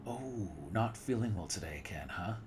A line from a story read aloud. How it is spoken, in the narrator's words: He said sarcastically